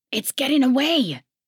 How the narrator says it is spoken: hollered a gravelly voice

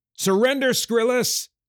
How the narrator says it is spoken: Micah yelled

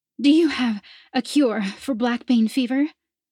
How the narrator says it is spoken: the woman gasped

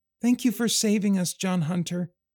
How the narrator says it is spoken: she said in her little voice

